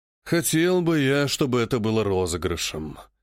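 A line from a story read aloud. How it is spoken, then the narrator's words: Sigh. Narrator (Russian): вздохнул Шелагин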